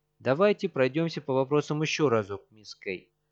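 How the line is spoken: Absurdly indifferent tone. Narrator (Russian): произносит Фрэнк Фой до нелепости безразличным тоном

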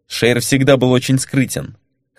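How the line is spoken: Wry grunt. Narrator (Russian): хмыкнул капитан Василисков

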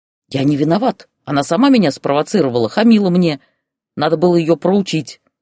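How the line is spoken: Indignant whining. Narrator (Russian): возмущенно причитал Олег

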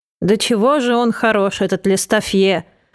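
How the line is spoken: Fat man sighing. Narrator (Russian): вздохнул толстяк

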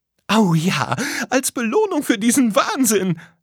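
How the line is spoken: Laughing. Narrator (German): lachte

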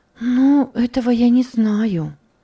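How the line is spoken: Sighing. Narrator (Russian): вздохнула она

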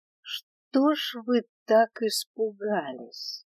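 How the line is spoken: Mocking. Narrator (Russian): Продолжил издеваться он

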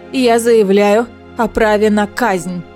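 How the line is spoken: Shouted out. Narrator (Russian): выкрикнула Манона

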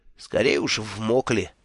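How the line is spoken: Curt grumble. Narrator (Russian): буркнул

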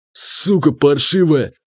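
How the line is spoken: Growling again. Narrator (Russian): вновь зарычал он

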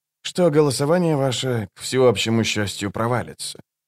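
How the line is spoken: Curt dry remark. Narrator (Russian): сухо бросил он через плечо

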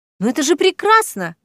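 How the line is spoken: Exclamation. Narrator (Russian): воскликнула гостья

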